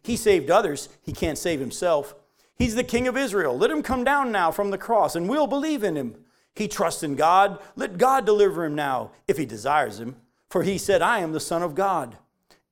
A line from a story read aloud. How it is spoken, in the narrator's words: the chief priests with the scribes and the elders mocked him, saying